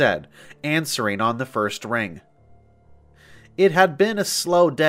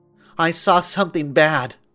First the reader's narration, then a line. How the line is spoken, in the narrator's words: a hysterical female voice cried on the other end of the line